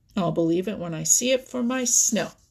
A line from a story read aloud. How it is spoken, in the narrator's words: snapped Blacky the Crow